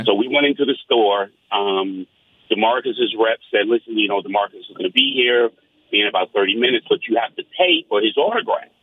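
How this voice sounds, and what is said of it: New York accent. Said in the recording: “I don't know if you can tell from my accent. I'm from New York.”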